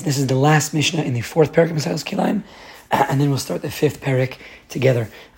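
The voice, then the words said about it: Strained, unwell voice. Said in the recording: “As you can tell, my voice is not any better than it was yesterday. In fact, it may be worse... I just want to make sure that I'm not straining too much.”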